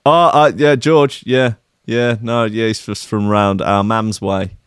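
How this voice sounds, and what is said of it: Put-on Scottish accent. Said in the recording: “that's the Scottish accent for you there”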